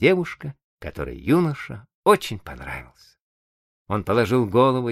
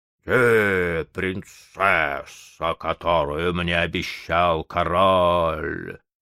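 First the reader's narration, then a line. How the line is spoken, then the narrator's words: Growling water spirit. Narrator (Russian): зарычал водяной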